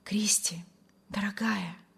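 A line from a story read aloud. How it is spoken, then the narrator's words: Rapturous whisper. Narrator (Russian): восторженно шептал Вильям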